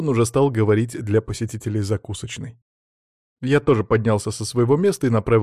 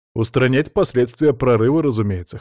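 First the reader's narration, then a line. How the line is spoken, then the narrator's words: Wry snort. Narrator (Russian): хмыкнул я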